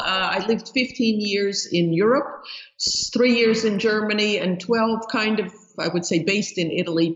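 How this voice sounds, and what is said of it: New York accent. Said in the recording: “you could probably hear by the accent that I grew up in New York, which somehow that New York accent never leaves you.”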